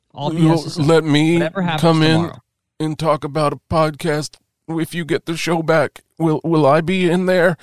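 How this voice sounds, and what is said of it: Imitates another person's voice. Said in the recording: “doing an impression”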